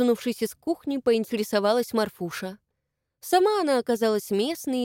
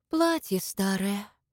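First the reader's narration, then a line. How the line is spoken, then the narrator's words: Sigh. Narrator (Russian): вздохнула Маша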